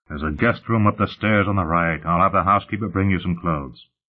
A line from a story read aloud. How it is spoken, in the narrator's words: Sullenly, Lutz said